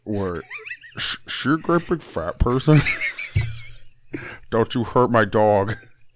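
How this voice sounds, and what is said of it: Impression of a movie villain's voice. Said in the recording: “Buffalo Bill impersonation is so good. It's so fucking good.”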